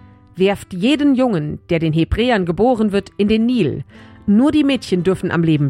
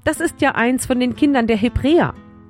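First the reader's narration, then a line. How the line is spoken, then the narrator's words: Called out with pity. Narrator (German): Mitleidig rief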